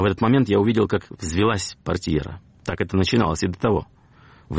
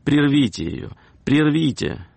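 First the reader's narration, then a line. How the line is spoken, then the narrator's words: Lady exclaiming. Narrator (Russian): одна дама воскликнула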